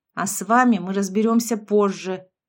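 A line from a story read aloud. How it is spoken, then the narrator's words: Growl. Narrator (Russian): Рома рыкнул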